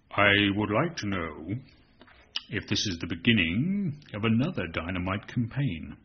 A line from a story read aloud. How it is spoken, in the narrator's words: he asked at once, in a deep, very smooth voice